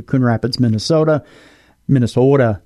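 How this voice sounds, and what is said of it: Put-on Minnesotan accent. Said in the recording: “of course, I'm saying it with the accent.”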